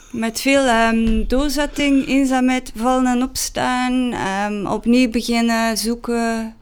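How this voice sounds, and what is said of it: Strong Ghent Flemish accent, marked R. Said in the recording (Dutch): “ik heb dus een ontzettend Gents accent. Zeker de R.”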